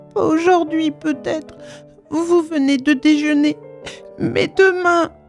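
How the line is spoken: Choked by sobs. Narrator (French): Elle ne put achever, ses sanglots la suffoquèrent

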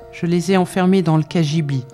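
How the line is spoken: Plain. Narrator (French): dit Maria

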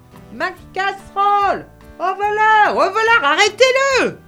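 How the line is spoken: Innkeeper yelling from behind. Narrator (French): hurlait derrière moi l'aubergiste

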